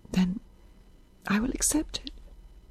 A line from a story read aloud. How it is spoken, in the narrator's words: said Isabel in a nearly inaudible voice